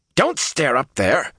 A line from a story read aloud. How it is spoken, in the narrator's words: Matt snapped